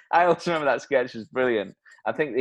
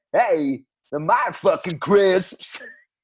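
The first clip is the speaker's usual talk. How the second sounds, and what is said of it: Christopher Walken impression. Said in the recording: “his impression of Christopher Walken was about as good as mine”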